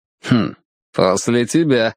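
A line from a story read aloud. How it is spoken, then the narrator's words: Smirking hmph. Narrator (Russian): хмыкнул Дивейн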